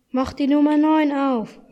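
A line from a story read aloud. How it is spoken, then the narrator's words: Excited call. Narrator (German): rief Hanno aufgeregt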